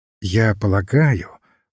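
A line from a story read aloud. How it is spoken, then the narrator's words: Very soft voice. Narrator (Russian): очень мягко сказал отец Браун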